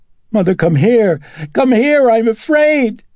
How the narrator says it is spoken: Reagan screaming

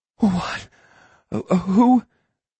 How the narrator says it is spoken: she stammered

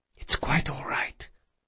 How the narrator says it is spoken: she whispered

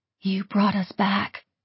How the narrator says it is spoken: she whispered

